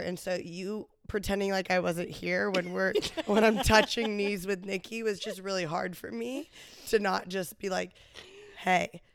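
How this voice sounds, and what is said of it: Sick-sounding voice. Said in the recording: “this is my sexy voice ... She purposely got sick”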